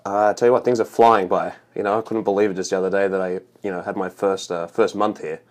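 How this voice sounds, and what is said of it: Australian accent. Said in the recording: “is that an Alabama accent I hear? ... It's Australian.”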